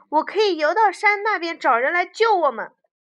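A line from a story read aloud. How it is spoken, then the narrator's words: Sudden shout. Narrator (Chinese): 弗洛格突然大叫一声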